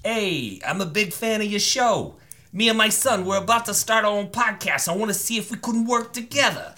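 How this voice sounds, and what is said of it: Put-on New Jersey accent. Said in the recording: “I'm gonna do your accent ... New Jersey accents are funny to me ... I want to hear your New Jersey.”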